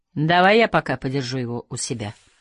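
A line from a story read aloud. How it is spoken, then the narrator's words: Dry offer. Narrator (Russian): предложил Махмуд, сухо улыбнувшись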